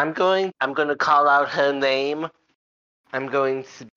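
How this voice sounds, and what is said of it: Usual voice. Nothing is said of it.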